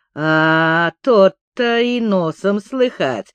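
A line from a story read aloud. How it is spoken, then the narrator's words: Mocking remark. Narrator (Russian): насмешливо заметил казак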